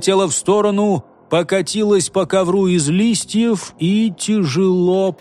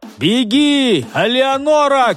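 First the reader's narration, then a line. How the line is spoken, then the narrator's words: Shouted. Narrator (Russian): крикнул он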